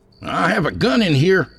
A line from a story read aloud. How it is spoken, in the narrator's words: Ryan shouted